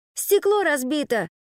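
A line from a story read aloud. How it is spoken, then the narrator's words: Exclamation. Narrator (Russian): воскликнул он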